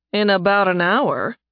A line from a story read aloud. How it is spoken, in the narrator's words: Nathan said dryly